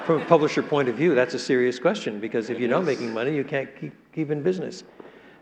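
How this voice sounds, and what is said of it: Canadian English accent. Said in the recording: “I love your Canadian accent.”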